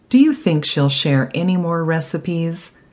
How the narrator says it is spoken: Michael laughed, but his spirit was heavy

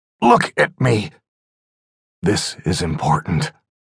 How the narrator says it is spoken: croaked

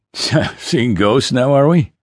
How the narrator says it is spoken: Bourbon laughed

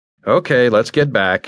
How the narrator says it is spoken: stated flatly

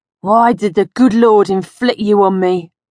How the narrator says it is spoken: he'd wheeze, hobbling on his bad foot

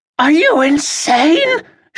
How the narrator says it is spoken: she shouted, her voice hoarse from screaming at him

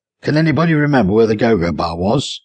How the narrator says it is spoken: Charles asked

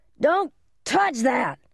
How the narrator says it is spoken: screamed

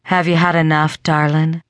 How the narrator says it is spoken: Lorelai purred

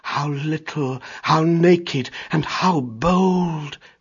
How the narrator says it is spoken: said Mother Wolf softly

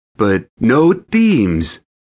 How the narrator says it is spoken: I barked out a laugh

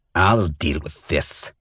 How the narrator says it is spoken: he hissed at Roke

